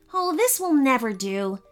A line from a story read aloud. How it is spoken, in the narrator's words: she said crossly